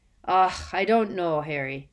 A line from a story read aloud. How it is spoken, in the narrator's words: Hagrid sighed suddenly, with a worried expression on his face